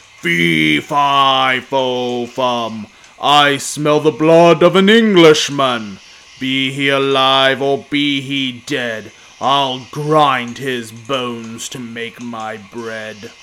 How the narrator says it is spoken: a booming voice that said

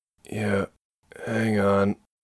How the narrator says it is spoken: Marie said weakly

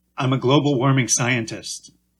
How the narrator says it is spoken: answered

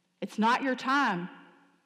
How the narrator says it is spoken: she said

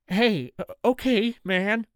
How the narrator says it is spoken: Anthony says, his voice shaky

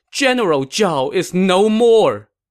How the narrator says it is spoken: Stunned, Zhuge Liang threw down his cup and cried

